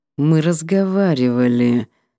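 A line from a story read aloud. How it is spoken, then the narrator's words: Irritated words through teeth. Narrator (Russian): раздраженно процедил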